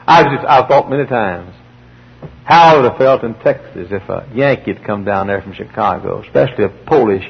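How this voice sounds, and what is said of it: Southern American accent. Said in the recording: “You think I've got a southern accent now. ... Y'all should have heard me then. ... I really had one.”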